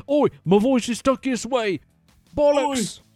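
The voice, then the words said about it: Bad put-on British accent. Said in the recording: “your little British impression there ... your British accent ... the guy doing the bad British accent”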